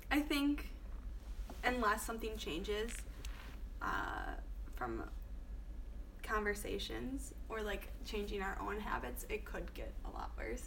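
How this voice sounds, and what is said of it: Hoarse, fading voice. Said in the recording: “losing my voice”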